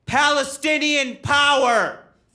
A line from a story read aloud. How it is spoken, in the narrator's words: a voice in the back of the room yell